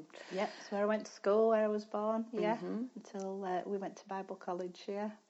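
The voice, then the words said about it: Yorkshire English accent. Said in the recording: “your accent, I don't think, is an islander's accent, is it? ... No, it's a Yorkshire accent.”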